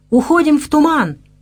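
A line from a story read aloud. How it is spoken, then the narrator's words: Ninja shouting. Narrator (Russian): крикнул ниндзя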